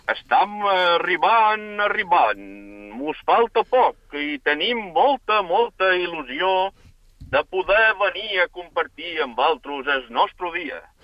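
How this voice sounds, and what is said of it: Formentera Catalan accent. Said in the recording (Catalan): “teniu un accent formenterer perfecte”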